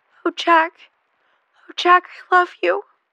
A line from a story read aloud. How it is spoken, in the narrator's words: Jackie sobbed